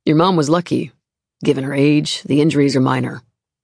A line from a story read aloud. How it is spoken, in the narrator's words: the nurse says